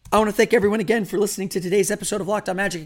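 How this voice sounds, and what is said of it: Hoarse voice. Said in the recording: “apologize for my voice. I am still hoarse”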